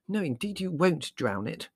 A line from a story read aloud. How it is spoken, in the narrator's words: exclaimed Mother indignantly